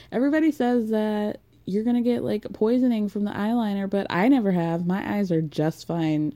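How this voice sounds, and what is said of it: Put-on southern accent. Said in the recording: “I'm doing a southern accent.”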